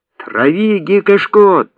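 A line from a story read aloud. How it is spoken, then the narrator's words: Shouting. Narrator (Russian): прокричал Арон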